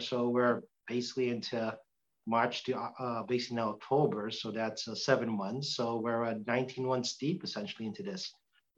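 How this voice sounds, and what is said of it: Thick Boston accent. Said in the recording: “my thick Boston accent”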